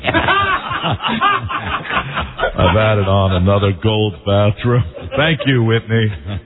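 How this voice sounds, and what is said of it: Imitates another person's voice. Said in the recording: “my Clive Davis impression”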